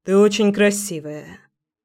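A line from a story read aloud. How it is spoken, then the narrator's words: Hoarse. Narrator (Russian): хрипло сказал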